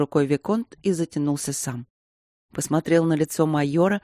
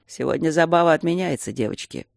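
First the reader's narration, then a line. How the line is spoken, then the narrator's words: Lazy. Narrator (Russian): произнес он лениво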